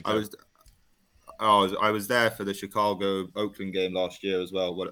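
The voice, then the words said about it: London accent. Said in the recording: “what an accent! This is amazing. ... You can excuse the accent.”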